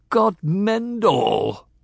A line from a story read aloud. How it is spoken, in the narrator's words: Bear cried with horror